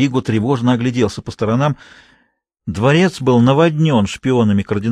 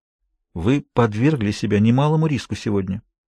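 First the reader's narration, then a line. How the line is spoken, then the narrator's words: Quiet. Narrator (Russian): тихо проговорил Америго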